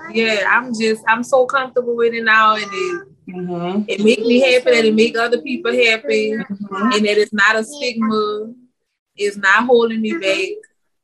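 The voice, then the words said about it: Speaks with a noticeable accent. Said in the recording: “I guess it would be my accent. It would be my accent. ... the way I talk”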